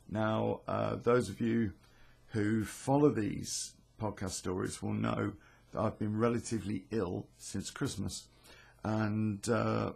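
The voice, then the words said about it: Slightly croaky voice. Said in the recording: “my voice is uh, a little bit croaky, I'm afraid... my voice isn't great”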